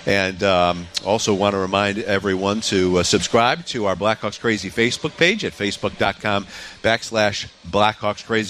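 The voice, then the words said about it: Slightly hoarse voice. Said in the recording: “I'm a little hoarse today”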